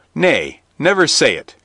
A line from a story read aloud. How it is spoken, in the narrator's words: cried Robin